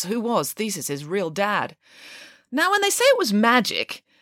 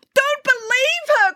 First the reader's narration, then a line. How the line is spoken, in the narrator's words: cried the wicked queen